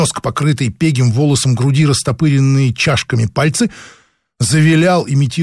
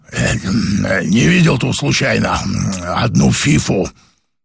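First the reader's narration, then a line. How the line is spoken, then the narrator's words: Hoarse smoker's voice. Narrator (Russian): прокуренным до хрипоты голосом спросил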